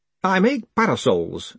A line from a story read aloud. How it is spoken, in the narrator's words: said the mayor